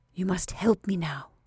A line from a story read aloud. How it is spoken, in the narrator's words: she whispered to the old woman